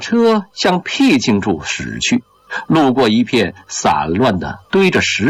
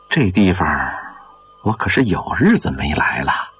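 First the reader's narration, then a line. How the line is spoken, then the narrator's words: Moved, sighing. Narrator (Chinese): 张山林被周围的景色打动了，他感叹着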